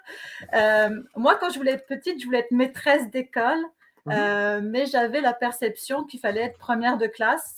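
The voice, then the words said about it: French accent from France. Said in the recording (French): “comme on peut le voir à mon accent, je, suis née en France”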